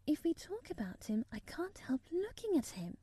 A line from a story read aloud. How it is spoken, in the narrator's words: Murray said as softly as possible